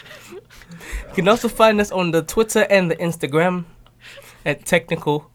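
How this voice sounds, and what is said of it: Put-on accent. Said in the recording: “Now you got an accent”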